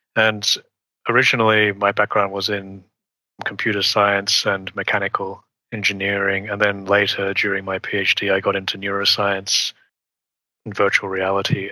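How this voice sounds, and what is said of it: Australian accent. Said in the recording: “as you might hear from my accent, I was born and raised in Australia, but I've lived in Switzerland for over 20 years”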